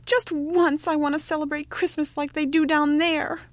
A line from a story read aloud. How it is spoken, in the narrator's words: he cried